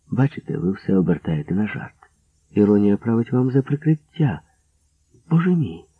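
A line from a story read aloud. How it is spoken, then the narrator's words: Calmly cut off. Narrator (Ukrainian): спокійно зупинила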